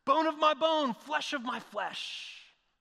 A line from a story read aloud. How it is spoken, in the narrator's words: shouts